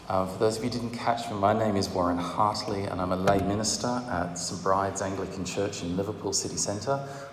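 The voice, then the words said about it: Non-Liverpool accent. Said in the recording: “if you can't half tell by the accent, I'm not originally from Liverpool”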